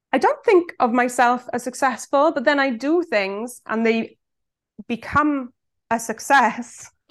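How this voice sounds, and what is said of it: South Welsh accent. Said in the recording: “where the hell is that accent from? ... I'm from Swansea in South Wales”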